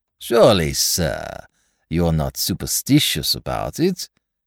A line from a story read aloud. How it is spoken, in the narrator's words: said he, with a slight sneer upon his thin lips